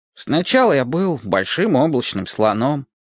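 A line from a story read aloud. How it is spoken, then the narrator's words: Plain. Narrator (Russian): ответил незнакомец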